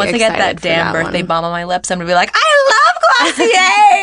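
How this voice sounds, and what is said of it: Usual voice. Nothing is said of it.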